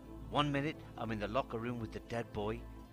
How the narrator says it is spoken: Carberry sneering

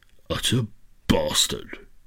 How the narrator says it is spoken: he said in a voice of distant rumbling thunder

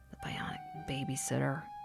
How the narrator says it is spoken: Zach muttered

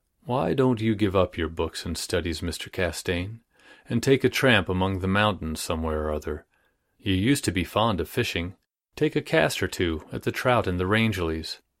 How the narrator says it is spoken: in silence for a while, and then said very gently

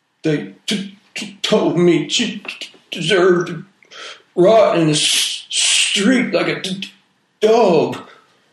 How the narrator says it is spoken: he said, his voice thick with sobs

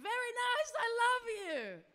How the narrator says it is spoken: so excited to see me, scream

